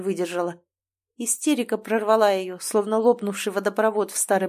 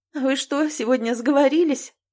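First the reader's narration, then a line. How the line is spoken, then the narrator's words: Speaking through laughter. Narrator (Russian): проговорила сквозь смех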